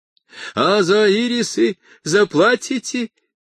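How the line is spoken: Shout. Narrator (Russian): крикнул человек в халате

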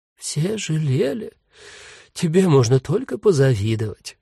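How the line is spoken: Sighing ghost. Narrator (Russian): вздохнул призрак Иосиф

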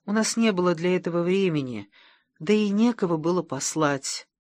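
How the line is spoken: Gently objecting. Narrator (Russian): мягко возразил Доркас

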